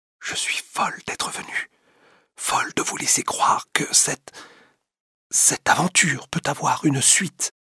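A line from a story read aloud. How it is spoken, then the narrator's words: Murmured. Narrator (French): murmure Madame Walter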